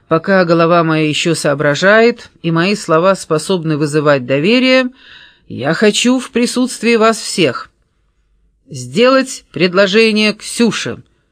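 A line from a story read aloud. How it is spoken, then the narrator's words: Chorus, then laughter. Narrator (Russian): хором проговорили Алексей и Александра, и снова покатились от хохота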